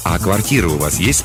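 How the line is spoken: Plain question. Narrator (Russian): спросил я

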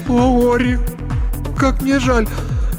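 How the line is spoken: Sobbing. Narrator (Russian): зарыдала вместе с ним

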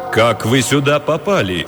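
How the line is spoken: Menacing question. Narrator (Russian): грозно спросил представитель ФБР

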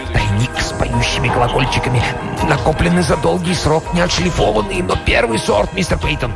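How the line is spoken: Whisper. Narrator (Russian): Корнуэлл шептал

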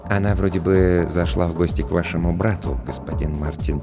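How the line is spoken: Quiet reply. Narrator (Russian): тихо ответил Роджер

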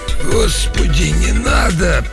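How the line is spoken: Hoarse, old-sounding wheeze. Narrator (Russian): просипел я почти старческим голосом

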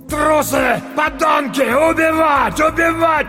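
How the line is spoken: Older man shouting. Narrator (Russian): кричал немолодой, но еще крепкий, коренастый мужчина

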